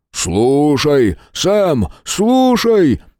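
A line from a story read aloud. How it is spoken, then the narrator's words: Booming low voice. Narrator (Russian): прогремел низкий голос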